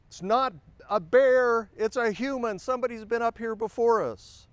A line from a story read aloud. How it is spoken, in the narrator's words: my friend Greg yelled down